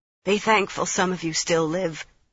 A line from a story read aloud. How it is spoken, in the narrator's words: she managed past her laughter